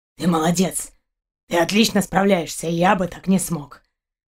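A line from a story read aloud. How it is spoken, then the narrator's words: Hoarse chuckle. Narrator (Russian): хрипло хохотнул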